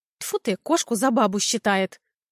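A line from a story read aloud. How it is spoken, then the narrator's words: Displeased grandmother snorting. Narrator (Russian): Недовольно фыркнула бабушка Груша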